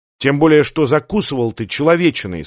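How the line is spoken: Plain. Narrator (Russian): сказала Лив

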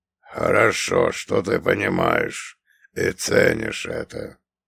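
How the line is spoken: Growled. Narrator (Russian): прорычал он

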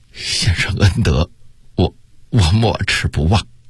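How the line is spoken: Choked with emotion. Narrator (Chinese): 他的心头顿时一热，哽咽地说道

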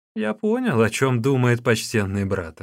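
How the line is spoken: Laughing reply. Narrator (Russian): рассмеявшись, отвечал Уюн

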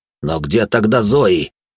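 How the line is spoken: Angry bark. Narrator (Russian): рявкнул Анри

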